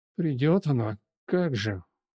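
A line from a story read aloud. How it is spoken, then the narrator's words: Gloomy low drone. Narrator (Russian): Мрачно гудит Куцый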